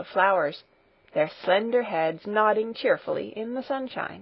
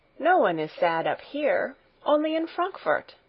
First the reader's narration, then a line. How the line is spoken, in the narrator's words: exclaimed Heidi